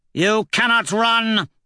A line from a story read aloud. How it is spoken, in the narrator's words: Aja shouts